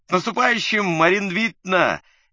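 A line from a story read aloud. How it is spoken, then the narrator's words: Cheerful yell. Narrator (Russian): весело заорал благополучный мордатый Павел Судаков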